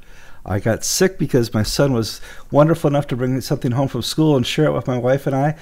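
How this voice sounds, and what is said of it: Congested nasal voice. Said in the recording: “my nose is all bad and why I speak through my nose is because I have a cold”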